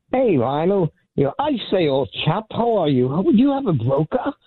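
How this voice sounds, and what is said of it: Put-on posh British accent. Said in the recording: “I figured I'd do a little accent. I love that man's accent. ... Is that an accent? I thought you had a mild stroke just now.”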